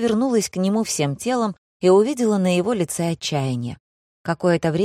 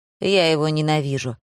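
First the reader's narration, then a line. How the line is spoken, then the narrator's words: Sighing. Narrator (Russian): вздохнул Джош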